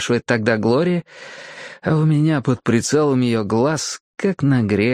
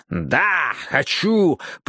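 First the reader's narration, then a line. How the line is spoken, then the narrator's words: Growl. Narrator (Russian): прорычал я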